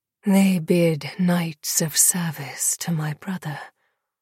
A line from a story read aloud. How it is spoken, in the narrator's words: Lily murmured beside her